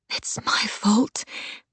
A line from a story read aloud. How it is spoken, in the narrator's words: Keisha whispered